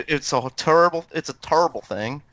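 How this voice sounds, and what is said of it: Charles Barkley impression. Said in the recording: “that's my Charles Barkley impression.”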